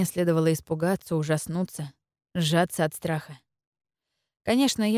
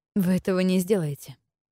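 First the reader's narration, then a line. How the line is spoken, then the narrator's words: Hoarse croak. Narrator (Russian): прохрипела я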